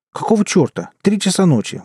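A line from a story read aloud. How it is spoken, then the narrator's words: Exclaimed. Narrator (Russian): воскликнул я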